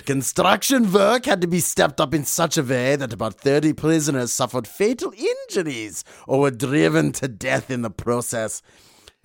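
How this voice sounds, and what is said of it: Attempted German accent drifting Scottish. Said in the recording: “I'm trying to do my German here ... You're going to Scottish there, my friend ... All my accents dissolved to Scottish sooner or later”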